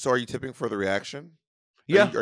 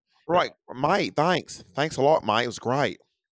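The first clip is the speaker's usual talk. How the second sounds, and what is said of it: Put-on Australian accent. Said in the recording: “Australian accent”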